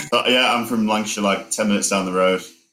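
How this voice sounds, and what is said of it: Northern English Lancashire accent. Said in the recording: “my accent's like, it went a bit southern. And then now I've come back up, so it's kind of like back to normal ... Lancashire, Blackburn, like it's full northern.”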